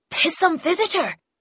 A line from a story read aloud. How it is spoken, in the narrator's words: he said urgently and rapidly